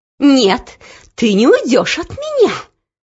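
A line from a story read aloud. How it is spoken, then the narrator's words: Hissed. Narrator (Russian): прошипела Анидак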